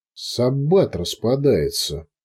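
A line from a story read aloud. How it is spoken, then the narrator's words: Drawling. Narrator (Russian): протянул лондонец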